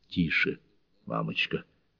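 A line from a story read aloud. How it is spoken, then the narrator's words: Whisper. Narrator (Russian): зашептал Мэнни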